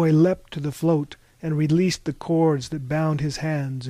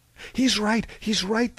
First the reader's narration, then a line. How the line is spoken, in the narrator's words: the man cried